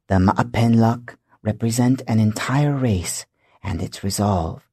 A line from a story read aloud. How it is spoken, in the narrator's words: Takalu whispered